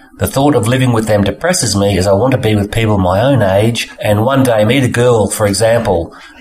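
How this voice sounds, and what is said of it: Australian accent. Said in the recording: “I like your accents... if I could, I would go to Australia and live there”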